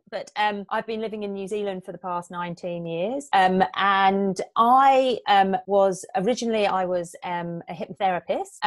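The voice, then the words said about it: English accent. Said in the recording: “I'm originally from England, as you can probably tell by my accent.”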